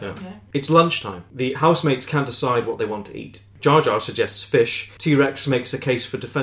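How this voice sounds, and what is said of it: Usual voice. Nothing is said of it.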